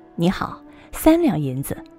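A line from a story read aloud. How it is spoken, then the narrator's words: Young man, faint smile. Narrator (Chinese): 少年微微一笑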